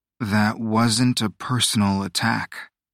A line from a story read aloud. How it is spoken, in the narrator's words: Aurelio said slowly, evenly